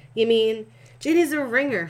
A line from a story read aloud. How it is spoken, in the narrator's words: Fred howled with glee